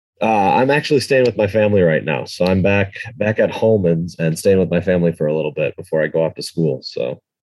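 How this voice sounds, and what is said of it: Wisconsin accent. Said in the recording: “Wisconsin. ... I hear the accent now.”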